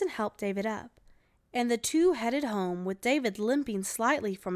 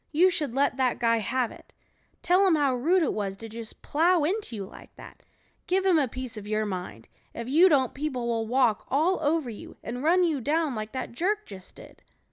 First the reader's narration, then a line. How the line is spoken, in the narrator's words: exclaimed